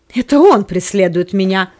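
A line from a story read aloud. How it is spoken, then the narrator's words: Exclaimed. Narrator (Russian): воскликнул Антипа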